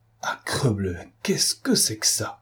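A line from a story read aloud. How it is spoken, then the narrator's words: Murmur. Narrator (French): murmura Lupin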